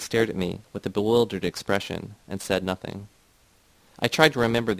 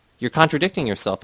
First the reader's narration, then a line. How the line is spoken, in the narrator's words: I exclaimed